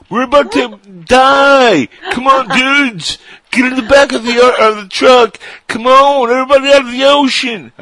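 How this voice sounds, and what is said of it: Laid-back surfer dude voice. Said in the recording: “a surfer guy ... somebody with like a Keanu Reeves early 90s accent”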